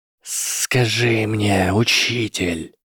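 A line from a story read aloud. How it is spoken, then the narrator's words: Hissed. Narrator (Russian): прошипел Гарри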